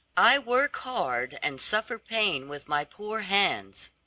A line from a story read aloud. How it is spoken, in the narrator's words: said she